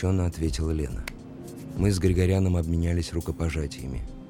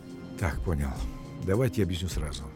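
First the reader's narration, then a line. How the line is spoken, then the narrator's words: Muttering. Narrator (Russian): пробормотал Григорян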